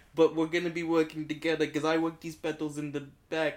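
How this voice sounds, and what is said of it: Put-on accent slipping. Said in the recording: “I feel like my accent's going...”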